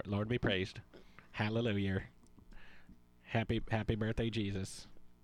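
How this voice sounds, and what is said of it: Put-on pious conservative Christian voice. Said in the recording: “What is that voice? ... That's my conservative Christian. ... Kind of sound like Ned Flanders a little bit.”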